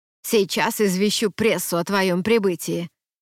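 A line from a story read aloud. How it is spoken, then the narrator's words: Grumbled, muttered. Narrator (Russian): буркнула Федра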